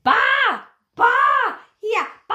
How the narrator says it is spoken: she's shouting

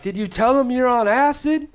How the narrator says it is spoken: yelled it for everybody to hear

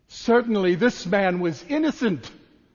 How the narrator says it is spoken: an officer of the Roman army, a centurion, we're told, was said to have exclaimed

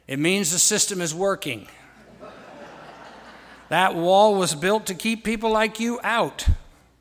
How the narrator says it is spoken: He laughed and said

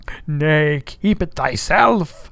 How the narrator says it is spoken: cried Gabriel to Ahab

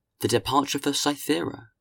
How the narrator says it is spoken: exclaimed Watteau

